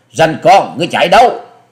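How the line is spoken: Loud shout, young woman. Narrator (Vietnamese): thiếu nữ áo xanh đã quát to

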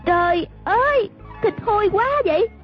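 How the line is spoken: Disgusted exclamation. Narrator (Vietnamese): A Tử la lên

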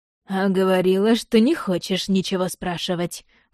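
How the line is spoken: Snorting smirk. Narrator (Russian): хмыкнул он

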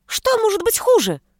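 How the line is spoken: Shrieking. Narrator (Russian): взвизгнул одноглазый

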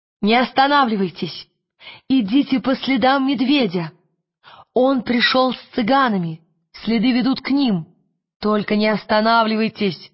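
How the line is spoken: Shouted to everyone. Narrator (Russian): крикнула всем

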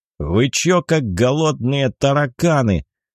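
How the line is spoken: Menacing question. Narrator (Russian): грозно поинтересовался Афоня

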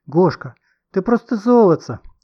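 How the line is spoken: Joyful squeal. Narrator (Russian): радостно завизжала Маша

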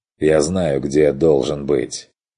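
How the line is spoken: Sharp, cutting off. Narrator (Russian): оборвал тот резко

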